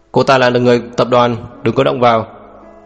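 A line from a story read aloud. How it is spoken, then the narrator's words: Cold shout. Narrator (Vietnamese): lạnh lùng quát lên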